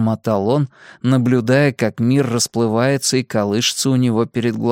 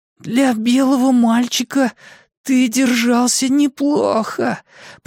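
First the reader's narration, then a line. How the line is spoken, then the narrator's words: Hoarse wheeze. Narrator (Russian): просипел Майк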